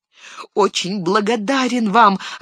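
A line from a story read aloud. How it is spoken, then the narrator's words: Joyful reply. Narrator (Russian): радостно ответил Мэри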